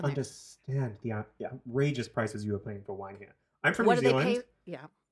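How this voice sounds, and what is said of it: Unplaceable mixed New Zealand accent. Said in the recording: “this accent doesn't make sense. It has no home.”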